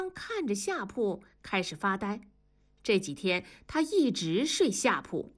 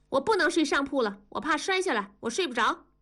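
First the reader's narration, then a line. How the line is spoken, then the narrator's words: Loud. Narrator (Chinese): 大声地说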